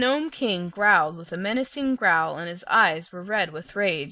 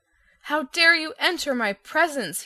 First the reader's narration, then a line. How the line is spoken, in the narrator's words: he shouted